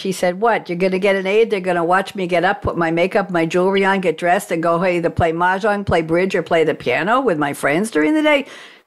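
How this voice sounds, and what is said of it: Made-up accent quoting someone. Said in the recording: “My mother didn't talk with that accent. I made it up.”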